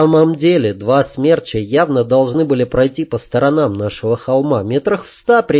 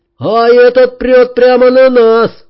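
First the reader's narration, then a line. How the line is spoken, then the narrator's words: Shouted reply. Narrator (Russian): крикнул в ответ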